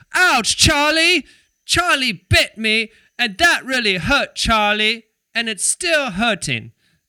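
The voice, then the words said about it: Put-on British accent. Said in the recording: “I tend to say Charlie with the British accent ... I love hearing Americans do British accent.”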